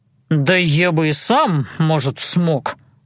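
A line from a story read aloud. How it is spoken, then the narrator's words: Grumbled. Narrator (Russian): буркнул тот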